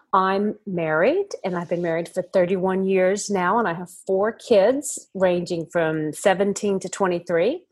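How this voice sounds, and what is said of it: American accent. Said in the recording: “I'm guessing you can hear an accent. I'm from America originally”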